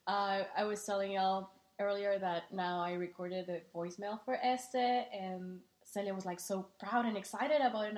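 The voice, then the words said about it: Strong Mexican accent. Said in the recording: “I have a very, very Mexican accent”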